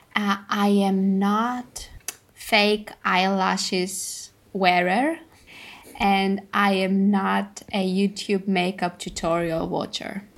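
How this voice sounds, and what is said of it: Greek-accented English. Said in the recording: “I can only do a bad English-Greek accent, and that's what I'm having basically all the time”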